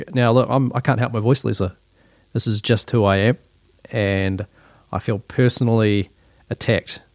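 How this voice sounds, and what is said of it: New Zealand accent. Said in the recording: “this is just my Kiwi accent”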